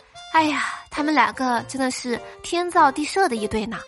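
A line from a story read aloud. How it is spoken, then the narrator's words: Admiring exclamation. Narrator (Chinese): 花卷就跟我感叹说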